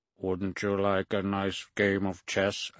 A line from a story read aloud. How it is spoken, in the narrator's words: I asked, modulating my voice to sound artificial like a computer's